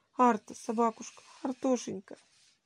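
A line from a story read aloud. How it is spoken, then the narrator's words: Crying boy. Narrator (Russian): вторил ей плачущим голосом мальчик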